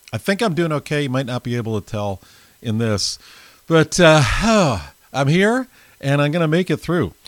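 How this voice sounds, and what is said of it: Strained, partly lost voice. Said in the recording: “lost my voice, kind of”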